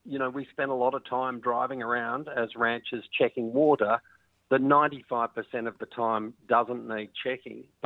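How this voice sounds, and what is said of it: Australian accent. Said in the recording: “I grew up on cattle ranches in Australia, as you might be able to tell from my accent.”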